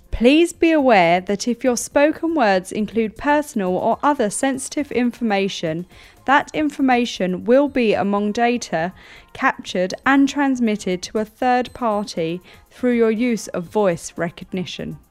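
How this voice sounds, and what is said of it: Formal BBC-style reading voice. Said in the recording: “in your best formal voice, in your BBC voice,”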